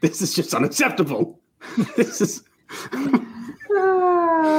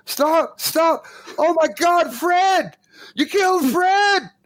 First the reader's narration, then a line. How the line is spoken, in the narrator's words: You hear a human voice from out there in the darkness, and he screams